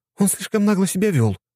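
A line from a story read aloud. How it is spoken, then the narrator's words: Princess exclaiming. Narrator (Russian): воскликнула княжна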